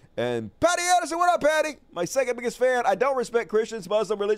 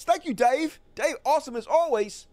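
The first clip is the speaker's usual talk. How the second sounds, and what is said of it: Put-on New Zealand accent. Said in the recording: “Practicing my Kiwi accent”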